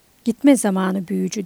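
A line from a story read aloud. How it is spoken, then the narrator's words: Calm voice. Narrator (Turkish): Meren sakin bir sesle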